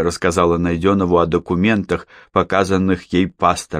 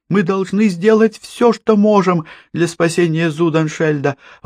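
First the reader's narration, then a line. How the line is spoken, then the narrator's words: Exclaimed. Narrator (Russian): воскликнула Валя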